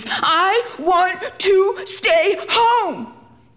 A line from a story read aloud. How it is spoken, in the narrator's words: screams